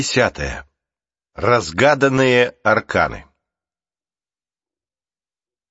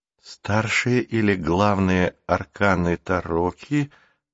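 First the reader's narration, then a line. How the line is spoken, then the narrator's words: Whisper. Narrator (Russian): прошептал Рик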